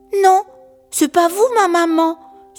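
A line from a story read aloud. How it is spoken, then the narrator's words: Little hedgehog indignantly exclaiming. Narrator (French): s'écrie le petit hérisson qui ne veut pas qu'on le prenne pour un idiot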